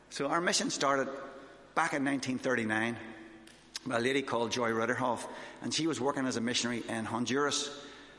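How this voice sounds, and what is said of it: Northern Irish accent, fast speech. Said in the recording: “I'm from Northern Ireland. I can talk as fast as you want. But sometimes I talk too fast because I get excited.”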